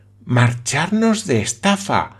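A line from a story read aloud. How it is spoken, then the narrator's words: Quick exclamation. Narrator (Spanish): exclamó seguida la señorita Campbell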